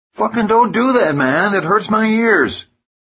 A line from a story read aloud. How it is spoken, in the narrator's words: Doug, 8612, yells out